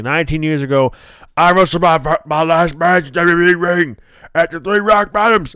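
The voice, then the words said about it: Imitates another person's voice. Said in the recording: “the Austin voice”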